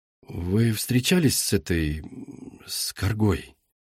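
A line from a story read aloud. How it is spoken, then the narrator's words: Quiet question. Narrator (Russian): тихо спросил Игрис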